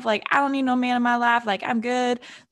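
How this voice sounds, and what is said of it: Sassy put-on voice. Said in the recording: “in my sassiest voice ever. Like, I don't know what accent that was that I just had”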